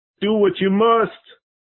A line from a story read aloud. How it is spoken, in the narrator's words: Poor Arthur with his face in his hands, cried